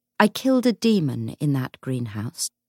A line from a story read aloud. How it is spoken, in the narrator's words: James said evenly